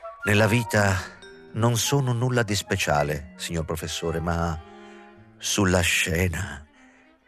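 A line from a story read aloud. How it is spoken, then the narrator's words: Caressing sing-song voice. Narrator (Italian): fu Öfgen a interrompere l'esame penosamente muto, osservando con la sua voce carezzevolmente cantilenante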